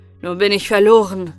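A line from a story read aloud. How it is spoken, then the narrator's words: Prince's call. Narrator (German): rief der Königssohn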